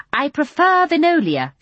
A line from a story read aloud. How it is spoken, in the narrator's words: she said haughtily